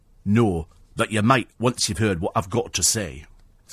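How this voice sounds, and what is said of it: Imitates another person's voice. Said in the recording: “It's a very bad impression, I know, but it's the only one I can do.”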